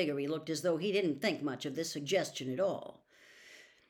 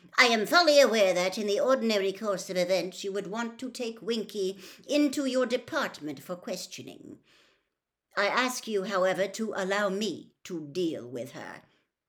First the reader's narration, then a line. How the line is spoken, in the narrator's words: Crouch curtly